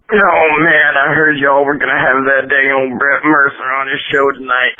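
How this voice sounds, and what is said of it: Detroit accent. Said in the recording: “What accent was that? ... That was Detroit. ... Yeah, Detroit accent.”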